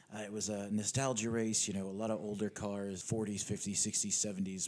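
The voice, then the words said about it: Hoarse voice. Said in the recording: “basically screamed into a microphone for 8.5 hours, and now I'm quite hoarse.”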